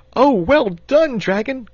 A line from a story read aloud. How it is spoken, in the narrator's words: cried the boy excitedly